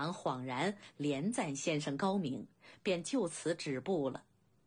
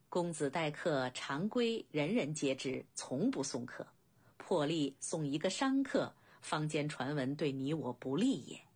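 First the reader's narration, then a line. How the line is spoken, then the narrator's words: Guest laughing. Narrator (Chinese): 客人笑道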